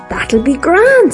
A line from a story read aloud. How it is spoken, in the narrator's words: says Johnny